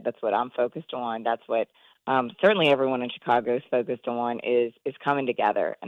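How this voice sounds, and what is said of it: Strained, failing voice. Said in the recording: “as you can hear, I'm losing my voice.”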